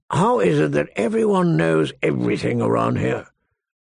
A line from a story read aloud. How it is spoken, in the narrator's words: Mormont grumbled